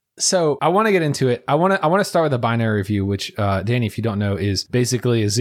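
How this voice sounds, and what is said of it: Usual voice. Nothing is said of it.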